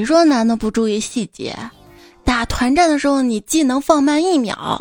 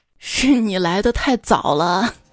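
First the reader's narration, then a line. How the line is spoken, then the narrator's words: Light laugh. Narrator (Chinese): 她男朋友笑笑说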